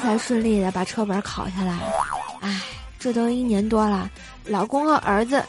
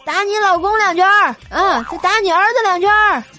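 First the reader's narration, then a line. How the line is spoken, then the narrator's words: Shouting coach. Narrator (Chinese): 教练就会这么喊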